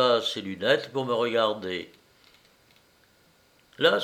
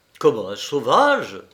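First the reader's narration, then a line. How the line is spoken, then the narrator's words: Exclaimed. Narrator (French): s'écria l'autre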